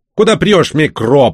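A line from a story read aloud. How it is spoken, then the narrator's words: Growl. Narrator (Russian): прорычал тот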